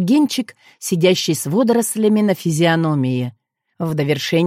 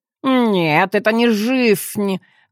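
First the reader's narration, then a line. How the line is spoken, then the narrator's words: Nasal declaration. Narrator (Russian): гнусаво заявил в пространство Герман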